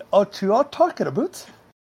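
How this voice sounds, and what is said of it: Swedish Chef impression, rising pitch. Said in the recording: “That's a new voice. ... That was the Swedish chef from the Muppets. ... You really climbed the scale when you realized you weren't doing Canadian.”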